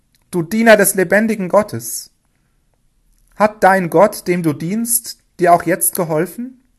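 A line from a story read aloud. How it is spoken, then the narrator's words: Calling down into pit. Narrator (German): rief in die Grube hinab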